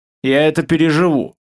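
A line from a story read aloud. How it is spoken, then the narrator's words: Snorting. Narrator (Russian): хмыкнул человек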